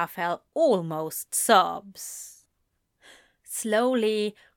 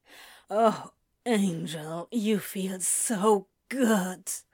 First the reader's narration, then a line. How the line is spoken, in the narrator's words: Crowley groans